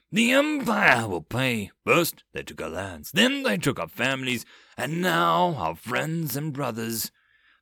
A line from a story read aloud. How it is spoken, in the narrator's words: Bors suddenly roared